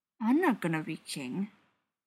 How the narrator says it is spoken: Keely mumbled, face buried in Thorin's shoulder

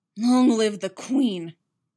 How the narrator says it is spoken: Sabe snarled

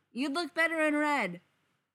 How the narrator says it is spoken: someone yells out

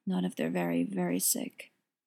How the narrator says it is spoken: General Bear says, with a low, heavy sigh

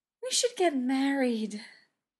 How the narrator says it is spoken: she sighed happily

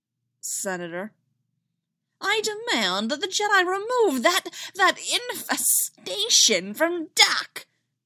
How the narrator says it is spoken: Tykes sputtered

